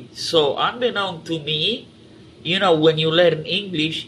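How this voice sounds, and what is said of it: Strong Romanian accent in English. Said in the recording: “if you notice my accent, I have a strong, I cannot put the tip of my tongue at the roof of my mouth to make the T.”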